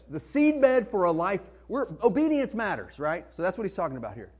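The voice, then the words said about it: Arkansas accent. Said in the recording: “my Arkansas accent”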